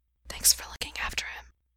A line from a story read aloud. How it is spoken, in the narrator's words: Gerard whispers